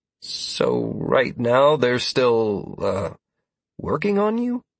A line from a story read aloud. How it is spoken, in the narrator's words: I asked hesitantly, unable to help but feel concerned